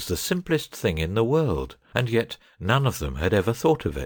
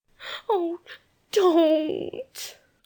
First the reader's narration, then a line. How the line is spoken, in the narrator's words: said Jane, almost whimpering